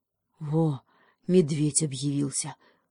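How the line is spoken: Sighing young beaver. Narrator (Russian): вздохнул бобренок

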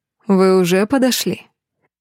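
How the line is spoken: Purring. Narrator (Russian): Мурлыкнул Дэмиан

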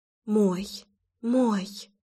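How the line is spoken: Uncontrolled whisper. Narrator (Russian): Уже не контролируя себя, шептала я

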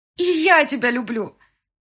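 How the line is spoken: Loud shout. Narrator (Russian): кричала я на весь зал

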